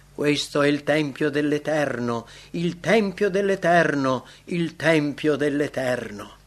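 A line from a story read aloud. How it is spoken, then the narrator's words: Mocking exclamation. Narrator (Italian): Avevano ridotto le cose sacre ad una farsa, esclamando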